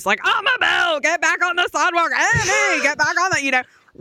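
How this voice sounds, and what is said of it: Southern mom voice. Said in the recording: “I'm in full, like, Southern mom voice.”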